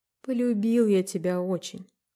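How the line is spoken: Quiet and anxious. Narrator (Russian): сказал Федор беспокойно и тихо

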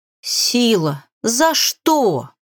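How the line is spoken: Crow howling. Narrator (Russian): взвыла ворона

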